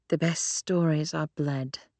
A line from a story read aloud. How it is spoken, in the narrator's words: Claire muttered, almost like a chant